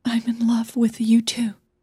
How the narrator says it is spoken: she whispered

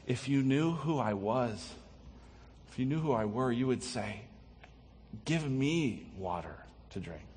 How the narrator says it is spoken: Jesus tenderly says

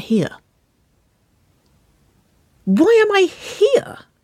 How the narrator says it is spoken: Winona gasped, in mock appall

